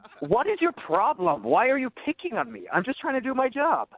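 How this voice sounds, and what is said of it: Irish accent. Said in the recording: “We don't have to talk about my accent ... Now that you know I'm Irish”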